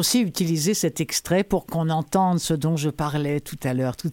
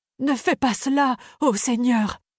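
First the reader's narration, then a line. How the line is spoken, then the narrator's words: Pleading. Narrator (French): supplia le marchand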